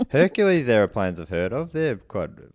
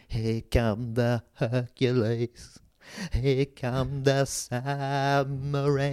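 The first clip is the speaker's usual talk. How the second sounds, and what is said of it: Imitates a singer's voice. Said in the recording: “great impression ... absolutely very good”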